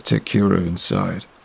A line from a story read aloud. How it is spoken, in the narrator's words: muttered my dad